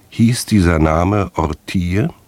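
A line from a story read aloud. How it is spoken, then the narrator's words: Calm question. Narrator (German): Kurvenal fragte mit ruhiger Stimme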